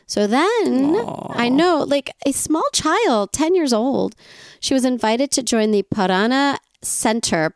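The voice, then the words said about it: Put-on accent. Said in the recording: “I'm trying to have an accent. Aren't I cute?”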